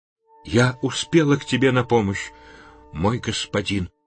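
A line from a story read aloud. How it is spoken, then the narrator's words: Woman whispering. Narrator (Russian): прошептала хазарка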